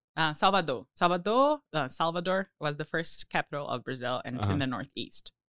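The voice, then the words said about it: Brazilian accent. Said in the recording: “I wonder if everybody can guess by my accent, but Brazil.”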